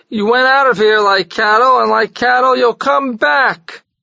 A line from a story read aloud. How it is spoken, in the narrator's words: cried 100 voices